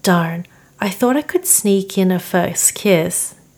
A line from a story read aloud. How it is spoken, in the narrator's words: James sighed